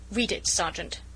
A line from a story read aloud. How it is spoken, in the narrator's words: said the latter curtly